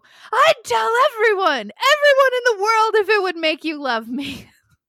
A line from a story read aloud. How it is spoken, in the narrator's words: he proceeds to loudly go